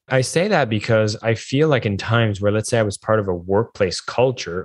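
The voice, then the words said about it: French accent. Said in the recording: “I have a French accent.”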